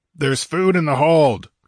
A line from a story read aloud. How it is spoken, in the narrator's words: he roared